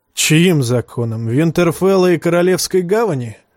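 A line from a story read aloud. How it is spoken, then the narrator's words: Laughing. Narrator (Russian): засмеялся Манс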